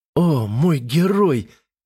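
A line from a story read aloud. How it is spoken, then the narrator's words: Moaned. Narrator (Russian): простонала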